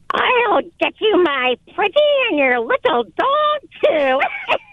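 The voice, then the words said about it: Wicked Witch of the West impression. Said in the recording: “The Wicked Witch from The Wizard of Oz ... Dan is giving a meh ... I thought it was very good”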